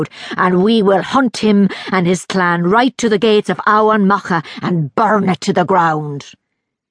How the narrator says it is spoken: growled Mir the Proud

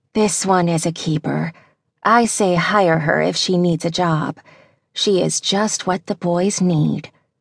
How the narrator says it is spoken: she whispered

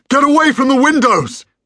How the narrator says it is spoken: bellowed Julian again

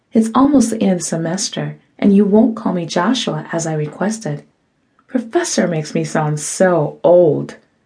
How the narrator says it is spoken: said kindly

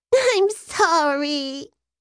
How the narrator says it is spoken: Geo cried

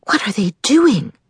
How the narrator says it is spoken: Bree whispered back

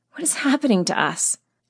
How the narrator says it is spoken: Heidi whispered to Brent and I

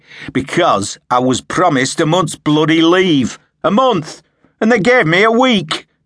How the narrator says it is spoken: Sharpe said harshly

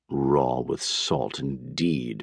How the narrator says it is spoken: muttered Dr

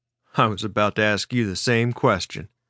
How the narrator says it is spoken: Sprite chuckled dryly as he replied

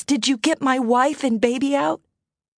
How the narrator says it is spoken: Frantically, he asked

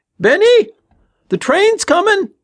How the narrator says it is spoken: Tommy yelled again, his voice increasing in pitch

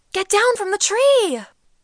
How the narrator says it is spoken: the adults shouted

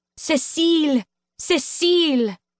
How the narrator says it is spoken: the audience shouted

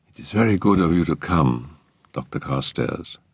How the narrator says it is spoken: she said in a low, musical voice

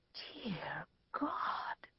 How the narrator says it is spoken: whispered Joseph of Arimathea

